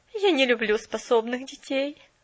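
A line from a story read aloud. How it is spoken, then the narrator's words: Stubborn objection. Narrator (Russian): упрямо возразила мисс Кэрю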